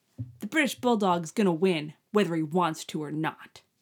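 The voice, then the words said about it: Child's voice with British accent. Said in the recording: “British accent”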